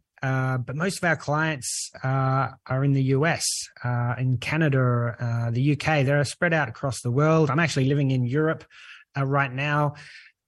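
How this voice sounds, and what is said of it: Australian accent. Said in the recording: “you can tell by my accent, if you're listening in, I'm Australian.”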